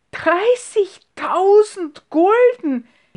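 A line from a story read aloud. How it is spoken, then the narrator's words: Woman exclaiming. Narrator (German): rief sie aus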